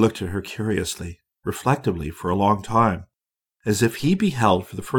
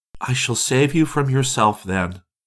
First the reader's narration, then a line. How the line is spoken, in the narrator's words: she cried